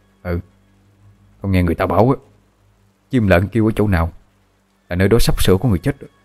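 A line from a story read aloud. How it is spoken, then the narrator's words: Trembling reply. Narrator (Vietnamese): Gã kia cũng run run đáp lại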